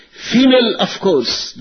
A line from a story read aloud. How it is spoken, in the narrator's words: the gent shot back angrily